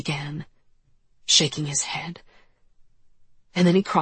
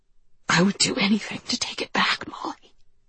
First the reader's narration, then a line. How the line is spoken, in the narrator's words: he breathed into my rigid neck